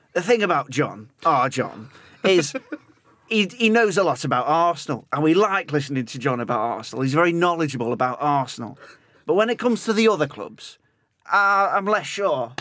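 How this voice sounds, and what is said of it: Imitates another person's voice. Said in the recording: “a fantastic accent”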